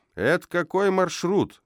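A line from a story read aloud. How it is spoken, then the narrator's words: Man shouting. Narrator (Russian): закричал гражданин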